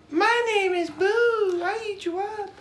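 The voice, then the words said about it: Majin Boo character voice. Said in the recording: “Could you do Majin Boo?”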